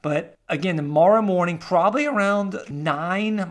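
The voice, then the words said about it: Voice cracks mid-sentence. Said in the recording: “my voice cracked there. It's been a long time talking here”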